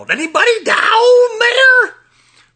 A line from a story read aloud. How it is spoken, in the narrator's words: She yelled